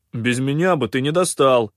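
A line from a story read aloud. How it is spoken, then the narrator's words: Deep booming voice. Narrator (Russian): босовито прогудел Кианг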